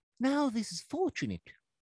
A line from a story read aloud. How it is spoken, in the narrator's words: she exclaimed